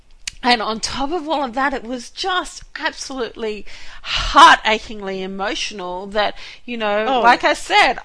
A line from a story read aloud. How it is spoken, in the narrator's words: I sobbed